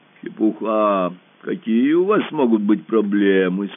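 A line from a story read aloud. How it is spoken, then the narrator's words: Deep bass voice. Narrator (Russian): сказал глубоким басом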